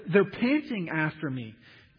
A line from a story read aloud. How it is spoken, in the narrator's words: David moans